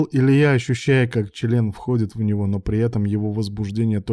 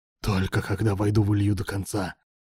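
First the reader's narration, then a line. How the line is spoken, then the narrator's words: Hoarse wheeze. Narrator (Russian): прохрипел Руслан, продолжая протискиваться в тугую щелку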